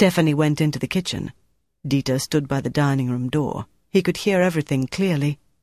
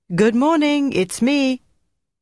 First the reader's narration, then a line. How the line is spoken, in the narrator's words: the girl called out in French